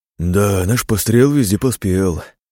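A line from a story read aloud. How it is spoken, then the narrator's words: Exhaled. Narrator (Russian): выдохнул Жора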